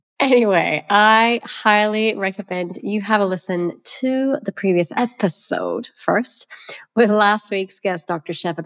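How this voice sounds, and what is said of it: Hoarse, congested voice. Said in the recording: “I want to apologize for my hoarse voice because I'm going to say snotty voice ... I do feel very snotty. I'm trying to recover from this cold”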